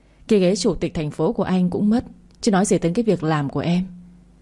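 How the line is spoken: Sighing. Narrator (Vietnamese): Đỗ Bình thở dài

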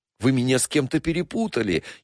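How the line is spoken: Frightened repeating. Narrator (Russian): испуганно озираясь, повторял обвиняемый

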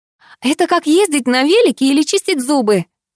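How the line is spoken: Exclaiming. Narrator (Russian): воскликнула Катя

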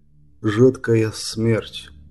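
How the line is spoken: Quiet, knight. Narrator (Russian): тихо произнес рыцарь

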